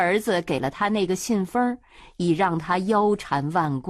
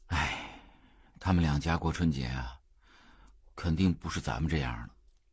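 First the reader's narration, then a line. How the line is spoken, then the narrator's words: Sighing. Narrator (Chinese): 炳坤叹道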